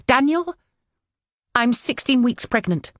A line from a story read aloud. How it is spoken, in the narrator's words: I blurted